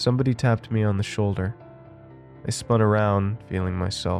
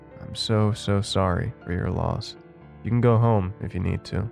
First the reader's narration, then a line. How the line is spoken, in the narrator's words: my boss said calmly